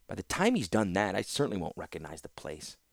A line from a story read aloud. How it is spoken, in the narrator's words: muttered Joyra bitterly